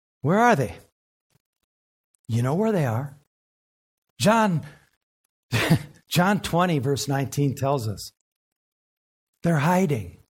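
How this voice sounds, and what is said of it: American Southern accent. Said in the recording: “You can tell I'm from the South, for instance, by how I talk.”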